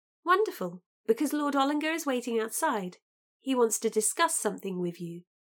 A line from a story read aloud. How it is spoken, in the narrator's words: Brightly, said